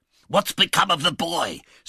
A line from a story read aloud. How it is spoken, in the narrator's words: said the Jew, threatening him with horrid imprecations